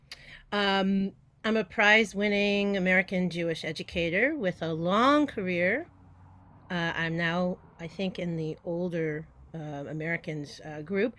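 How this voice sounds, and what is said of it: American accent. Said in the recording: “I'm obviously the one with the American accent.”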